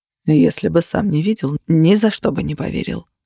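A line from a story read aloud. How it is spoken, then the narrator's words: Muttered. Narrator (Russian): пробормотал Тейт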